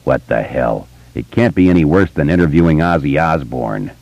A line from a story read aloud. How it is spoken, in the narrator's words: Richie sighed, said